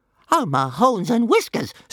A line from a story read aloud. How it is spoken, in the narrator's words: squealed Toothless